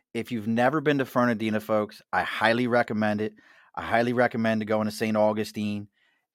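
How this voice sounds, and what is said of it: Mid-Atlantic American accent, not Southern. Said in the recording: “this is a mid-Atlantic accent, if you haven't figured it out yet. It's not Southern.”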